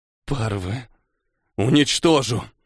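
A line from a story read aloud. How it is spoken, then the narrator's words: Hissed. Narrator (Russian): прошипел Мора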